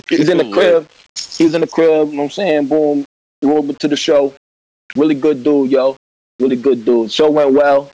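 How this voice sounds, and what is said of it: Hoarse, strained voice. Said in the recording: “lost my voice”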